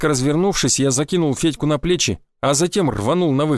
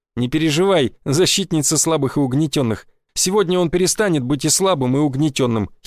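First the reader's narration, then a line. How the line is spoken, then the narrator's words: Giggling. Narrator (Russian): хихикнул я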